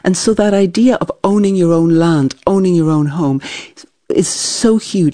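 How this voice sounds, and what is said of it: Slightly transatlantic accent. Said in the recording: “your accent, which is a little transatlantic”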